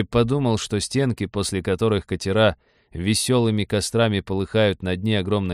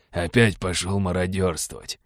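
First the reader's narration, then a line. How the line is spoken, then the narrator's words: Gruff mutter. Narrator (Russian): буркнул адмирал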